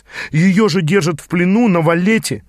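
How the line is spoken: Exclaiming. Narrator (Russian): воскликнул я

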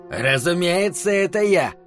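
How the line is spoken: Snapped. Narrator (Russian): огрызнулся изгнанник

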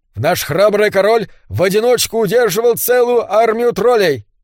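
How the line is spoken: Loud elf announcement. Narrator (Russian): громко известил эльф

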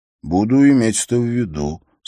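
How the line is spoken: Calm. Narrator (Russian): спокойно произнес Хорос

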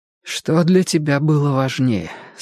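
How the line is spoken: Hoarse question. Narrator (Russian): спросила она хрипло

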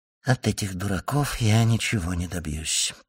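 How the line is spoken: Whispered. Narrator (Russian): прошептал он

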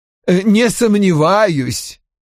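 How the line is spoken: Snorting. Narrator (Russian): хмыкнул Хьюитт

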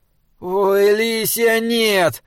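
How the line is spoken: Exhausted groan. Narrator (Russian): простонал Саймон и без сил

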